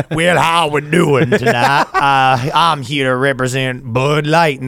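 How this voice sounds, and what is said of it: Put-on Southern American accent. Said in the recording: “my southern accent”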